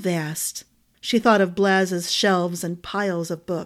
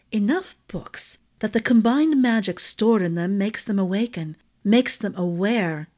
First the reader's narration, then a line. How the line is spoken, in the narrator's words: the ring sighed